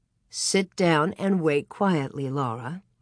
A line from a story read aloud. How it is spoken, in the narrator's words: Ma gently admonished her